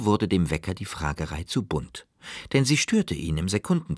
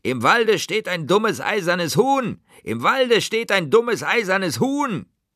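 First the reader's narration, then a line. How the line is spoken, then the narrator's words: Contemptuous screaming. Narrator (German): voller Verachtung, schrien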